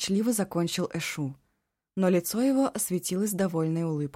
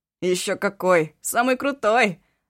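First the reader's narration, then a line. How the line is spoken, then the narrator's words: Laughing loudly. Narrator (Russian): расхохотался Эшу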